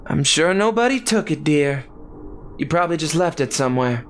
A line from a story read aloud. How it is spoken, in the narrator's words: Daisy sighed